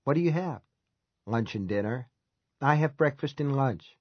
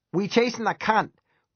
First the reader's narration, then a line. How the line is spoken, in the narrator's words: Ronnie Malenfant yelled to the room at large